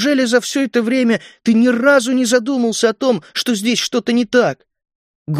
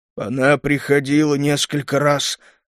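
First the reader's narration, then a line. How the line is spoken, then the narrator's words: Hoarse old man. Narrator (Russian): прохрипел старик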